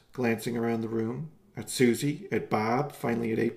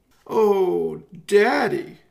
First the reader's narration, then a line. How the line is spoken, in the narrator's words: April wailed in a flood of tears